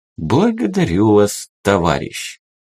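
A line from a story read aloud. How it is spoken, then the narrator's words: Tender, poetic reply. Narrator (Russian): Поэтически ласково ответил полковник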